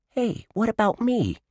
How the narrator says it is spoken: Josh squeaked

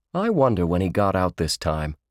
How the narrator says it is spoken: Forrest said

